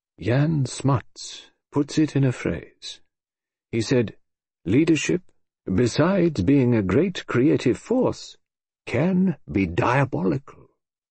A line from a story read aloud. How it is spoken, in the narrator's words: He lowered his voice as he said